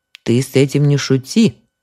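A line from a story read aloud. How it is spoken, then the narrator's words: Stern old woman. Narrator (Russian): строго сказала старуха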